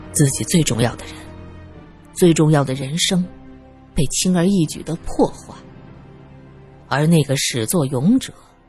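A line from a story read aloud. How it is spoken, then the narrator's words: Sighing. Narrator (Chinese): 方正良叹了口气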